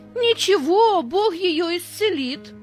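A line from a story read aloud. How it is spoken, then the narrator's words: Half-joking shout. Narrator (Russian): то ли серьезно, то ли шутя, выкрикнул Петя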